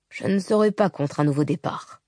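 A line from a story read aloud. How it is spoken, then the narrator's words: Mumbled. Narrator (French): marmonna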